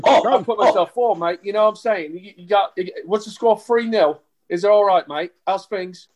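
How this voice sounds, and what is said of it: Put-on English accent. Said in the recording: “I think my English accent might be a little better than your American one ... That's not bad, actually.”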